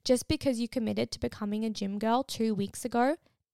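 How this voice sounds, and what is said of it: Sudden momentary accent shift. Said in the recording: “my accent just changed then.”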